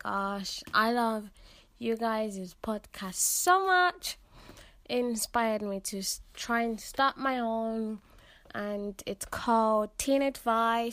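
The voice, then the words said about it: British accent. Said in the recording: “I love your accent ... I listen to it just for the accent ... Teenager therapy, but make it British”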